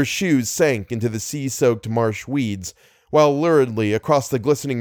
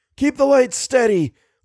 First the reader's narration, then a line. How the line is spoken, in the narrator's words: Little cried out, his voice tremulous with concern, his features set in an expression of utter revulsion